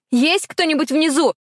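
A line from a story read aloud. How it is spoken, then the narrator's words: Yelling. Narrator (Russian): заорала я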